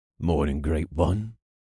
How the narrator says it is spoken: the engineer said in his gruff, gravelly voice

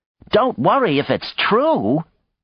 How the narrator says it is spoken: Maya shouted into her wrist pad

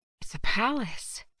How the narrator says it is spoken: she muttered

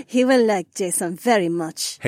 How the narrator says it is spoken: Haywan laughed

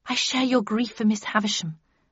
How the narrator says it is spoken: murmured Beatrice

